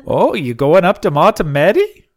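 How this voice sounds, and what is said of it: Exaggerated Scandinavian-sounding Minnesota accent. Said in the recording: “That's not it either. That's a Norwegian. It's a Swedish chef accent.”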